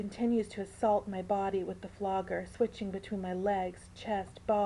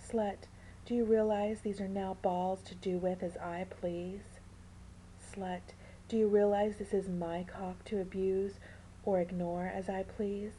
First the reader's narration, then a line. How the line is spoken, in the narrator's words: Miss sweetly whispers in my ear